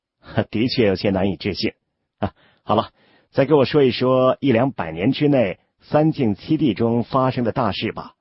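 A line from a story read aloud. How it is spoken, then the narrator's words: Smiling woman. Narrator (Chinese): 两名女修中的一名呢，也嫣然一笑的说道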